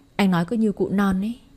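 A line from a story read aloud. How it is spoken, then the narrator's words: Bursting laughter. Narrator (Vietnamese): Vương Thăng bật cười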